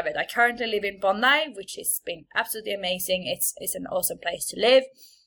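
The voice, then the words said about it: Swedish accent. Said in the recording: “what is this accent? ... I am from Sweden”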